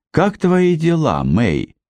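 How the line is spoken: Gentle, affectionate question. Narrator (Russian): ласково спросил каноник Форестер

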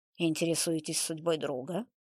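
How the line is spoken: Cold clarifying question. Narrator (Russian): уточнил Беленков и холодно произнес

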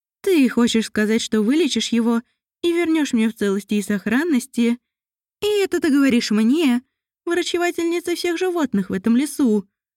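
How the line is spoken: Cheerful. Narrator (Russian): эльфийка весело произнесла

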